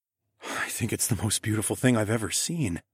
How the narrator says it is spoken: breathed

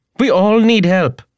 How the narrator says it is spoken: cried

